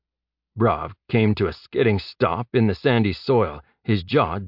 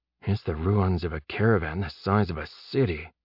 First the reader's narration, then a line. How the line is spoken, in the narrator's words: he whispered